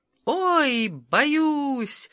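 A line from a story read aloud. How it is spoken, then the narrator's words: Screaming. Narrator (Russian): завопила Анна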